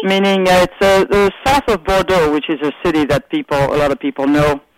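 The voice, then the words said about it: French accent. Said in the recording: “You have the best accent. ... Where in France are you from?”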